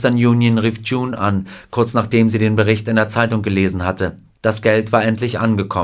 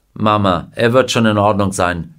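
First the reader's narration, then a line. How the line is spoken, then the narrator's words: Plain. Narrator (German): sagte Mr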